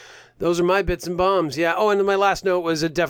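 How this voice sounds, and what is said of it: Usual voice. Nothing is said of it.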